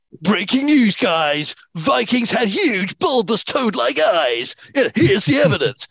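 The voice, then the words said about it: Confident American Hollywood accent. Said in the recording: “let me do my confident American Hollywood accent”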